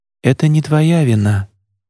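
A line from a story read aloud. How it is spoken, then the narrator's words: Said softly. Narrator (Russian): мягко сказала она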